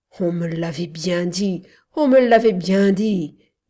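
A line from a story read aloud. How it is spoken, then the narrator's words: Moaning. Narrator (French): gémit-il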